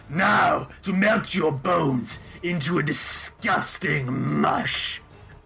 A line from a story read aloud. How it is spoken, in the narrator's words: Avarice kind of cackles and is like